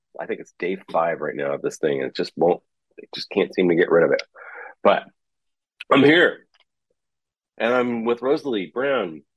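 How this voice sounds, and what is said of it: Congested, sore-throated voice. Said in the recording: “not mumbling because I have a Halls in my mouth because I've got a little bit of a sore throat and a little bit of a head cold right now”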